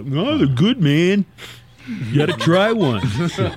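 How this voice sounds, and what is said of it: Imitates another person's voice. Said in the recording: “good Tommy impression”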